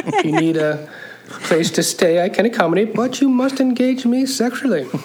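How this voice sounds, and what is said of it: Badly done put-on accent. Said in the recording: “what a terrible accent he's doing”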